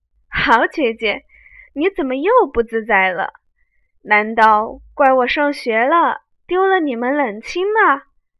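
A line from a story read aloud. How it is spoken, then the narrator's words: Laughing. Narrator (Chinese): 袭人笑道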